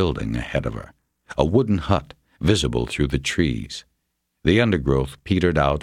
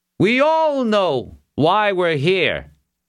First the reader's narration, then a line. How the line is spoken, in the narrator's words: Borkin called out again